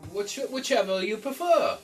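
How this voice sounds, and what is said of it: Character voice for a game character. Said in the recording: “I did the voice for what? Sniff.”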